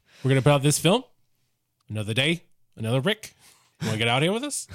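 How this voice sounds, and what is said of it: Put-on Australian or New Zealand accent. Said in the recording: “Do your Australian. Do it. ... Australian is very good. It's very good. ... New Zealand. ... it is very solid.”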